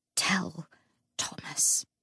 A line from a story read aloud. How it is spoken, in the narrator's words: he whispered